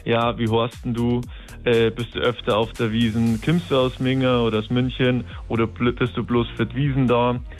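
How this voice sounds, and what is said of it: Strong Bavarian dialect. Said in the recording (German): “Flirtsprüche auf Bayerisch ... Was hast du jetzt gesagt? Das habe ich jetzt nicht verstanden.”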